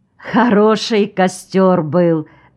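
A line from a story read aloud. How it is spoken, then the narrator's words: Laughing. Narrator (Russian): засмеялась Магда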